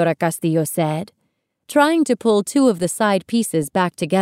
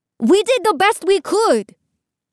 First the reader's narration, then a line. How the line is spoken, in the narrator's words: Iván yelled